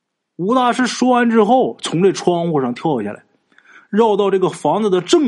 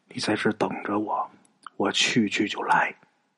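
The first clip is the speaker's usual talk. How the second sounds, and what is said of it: Quiet whispered line. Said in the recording (Chinese): “很小声的说”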